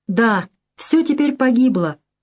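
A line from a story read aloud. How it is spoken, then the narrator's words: Sorrowful exclamation. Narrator (Russian): горестно воскликнул Андре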